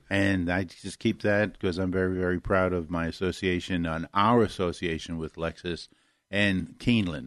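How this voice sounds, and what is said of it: Northern Kentucky accent. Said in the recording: “I have that northern Kentucky accent, so it's hard for a lot of people to understand me sometimes”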